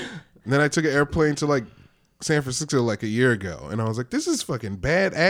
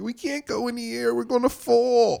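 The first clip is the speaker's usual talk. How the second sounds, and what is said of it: Imitates own younger self's voice. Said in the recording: “your impression of yourself”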